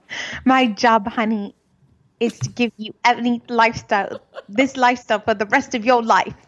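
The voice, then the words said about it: Attempted British accent. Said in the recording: “Let me get my British accent. ... Sorry, I can't say it.”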